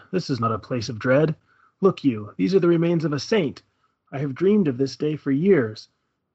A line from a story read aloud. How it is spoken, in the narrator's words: he laughed and said